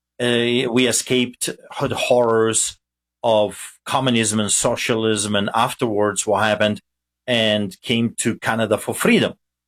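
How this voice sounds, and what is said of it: Polish accent. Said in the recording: “Being a Polish immigrant with a funny accent”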